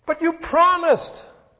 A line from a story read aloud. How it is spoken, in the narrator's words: cried the brave